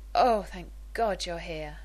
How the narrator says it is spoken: Rodney sighed

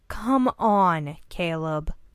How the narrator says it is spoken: Sawyer groaned

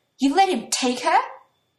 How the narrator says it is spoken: Natsumi is staring in horror, and she says angrily

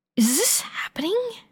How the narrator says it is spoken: Olawande hisses

